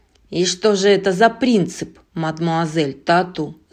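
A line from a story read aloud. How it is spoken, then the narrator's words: Angry question. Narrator (Russian): злобно спросил Живодер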